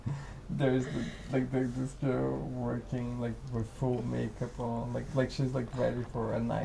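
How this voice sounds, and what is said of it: Usual voice. Nothing is said of it.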